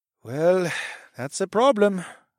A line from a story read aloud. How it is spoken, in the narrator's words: Farid sighed